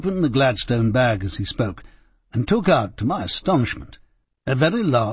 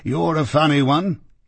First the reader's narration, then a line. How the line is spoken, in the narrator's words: chuckled the inspector